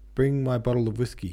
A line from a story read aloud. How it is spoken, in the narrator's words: called out